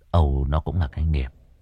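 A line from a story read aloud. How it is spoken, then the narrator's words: Sighing. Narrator (Vietnamese): Cậu thở dài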